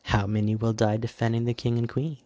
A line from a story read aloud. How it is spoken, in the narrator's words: the other queen answered softly